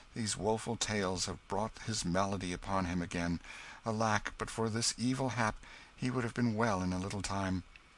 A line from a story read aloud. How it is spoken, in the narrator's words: sighed Hendon